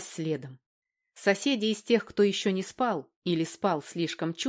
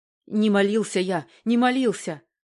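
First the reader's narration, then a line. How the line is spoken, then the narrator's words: Old man's hoarse wheeze. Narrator (Russian): захрипел пенсионер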